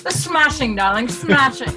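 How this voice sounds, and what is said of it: Weak put-on English accent. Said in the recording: “You got to work on that English accent there ... I'm terrible at an English accent ... Did not sound any different.”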